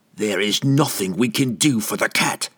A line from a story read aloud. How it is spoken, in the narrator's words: the assassin said roughly